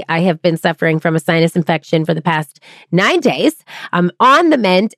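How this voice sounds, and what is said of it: Extra nasal, congested voice. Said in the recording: “my nasal twang is even more twangy ... I'm usually pretty nasal, but a little extra nasal today”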